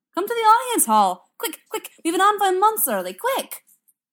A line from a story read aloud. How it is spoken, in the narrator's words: Hamish arrives, shouting